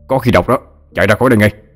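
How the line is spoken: Shouted. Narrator (Vietnamese): Ông Thái nói như quát

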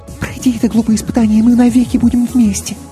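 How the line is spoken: Quick whisper. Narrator (Russian): Мийка быстро шепнула

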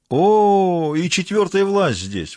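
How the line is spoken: Sudden joyful exclamation. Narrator (Russian): вдруг радостно воскликнул Тенч

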